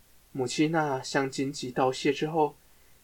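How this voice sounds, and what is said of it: Usual voice. Nothing is said of it.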